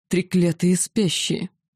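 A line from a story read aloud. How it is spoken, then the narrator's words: Hoarse furious dragon growl. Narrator (Russian): хрипло, с нескрываемой яростью прорычал дракон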